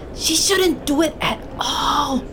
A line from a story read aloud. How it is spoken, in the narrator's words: Medina hissed